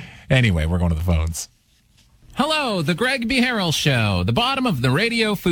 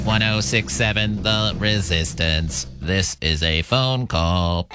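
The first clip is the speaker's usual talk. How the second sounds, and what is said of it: Robot voice. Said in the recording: “doing a robot voice.”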